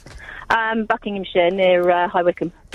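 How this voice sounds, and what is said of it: Posh telephone voice. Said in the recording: “sound very posh ... You had your telephone voice at the start”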